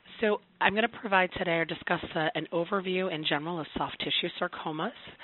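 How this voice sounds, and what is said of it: Slightly hoarse, projected voice. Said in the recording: “I have a little bit of a hoarse voice, so I'm trying to project”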